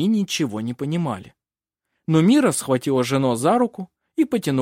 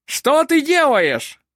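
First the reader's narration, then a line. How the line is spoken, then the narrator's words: Angry shout, innkeeper woman. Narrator (Russian): сердито закричала трактирщица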